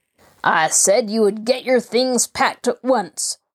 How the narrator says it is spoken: snarled Jacob Aborn

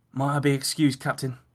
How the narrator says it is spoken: Howie spoke gruffly, desperate to be away from the place

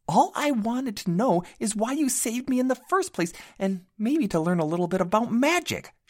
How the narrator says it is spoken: she shouted

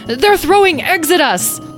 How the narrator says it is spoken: Tom yelled

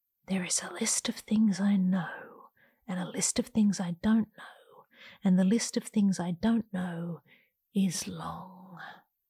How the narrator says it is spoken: rational Janine leans in to whisper

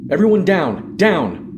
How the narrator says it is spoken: Corporal Reed shouted

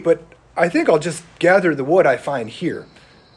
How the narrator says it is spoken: the boy replied coldly

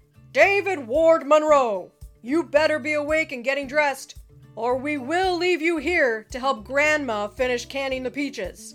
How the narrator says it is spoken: his booming voice called

